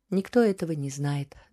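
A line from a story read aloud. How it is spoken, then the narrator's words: Sighing. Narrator (Russian): вздохнула она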